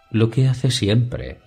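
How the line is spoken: Purring voice. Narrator (Spanish): respondió su hermana Tiene con voz ronroneante

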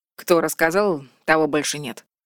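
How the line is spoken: Calm. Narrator (Russian): спокойно сказал Вальдекрис

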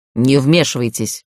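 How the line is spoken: Harsh bark. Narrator (Russian): рявкнул Гарф

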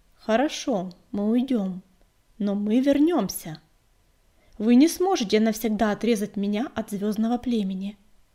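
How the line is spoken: Calm. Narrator (Russian): спокойно сказала

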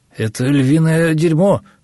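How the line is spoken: Uncertain explaining. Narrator (Russian): пояснил неуверенно тот самый говорун

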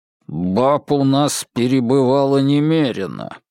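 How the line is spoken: Through gritted teeth. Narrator (Russian): сквозь зубы процедил Кок

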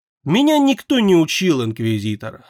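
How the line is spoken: Calm, even voice. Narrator (Russian): ровным и спокойным голосом ответила ведьма

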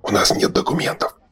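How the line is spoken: Whisper. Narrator (Russian): шепнул Шорох Берду

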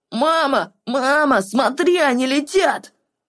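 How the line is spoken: Sudden shout. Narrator (Russian): Вдруг выкрикнул он

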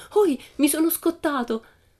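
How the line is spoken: Children shouting while jumping. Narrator (Italian): i 5 ragazzi si misero a fare il giro tondo intorno a Pippi e saltando gridavano

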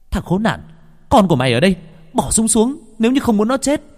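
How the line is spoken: Shouted. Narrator (Vietnamese): Hồng Anh vừa nhìn thấy Thiên Phong do dự thì hét lên

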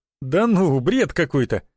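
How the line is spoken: Laughing. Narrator (Russian): засмеялся Роман

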